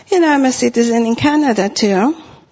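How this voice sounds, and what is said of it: Non-native accent in English. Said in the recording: “all I have to do is say hello, and everybody knows I'm a foreigner. My accent comes out... I have an accent in English”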